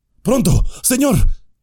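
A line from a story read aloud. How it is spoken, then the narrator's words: Panting. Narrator (Spanish): jadeó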